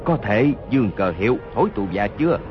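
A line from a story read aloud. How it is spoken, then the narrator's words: Lowered voice, wounded. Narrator (Vietnamese): Hốt Đô Hổ toàn thân giấy máu, hạ giọng nói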